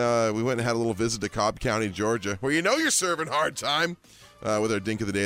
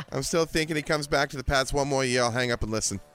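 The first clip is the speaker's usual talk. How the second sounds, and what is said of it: Put-on Boston accent. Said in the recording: “Pretty good Boston impression.”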